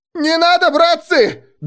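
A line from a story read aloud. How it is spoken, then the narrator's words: Wild yelling. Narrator (Russian): дурно заорал я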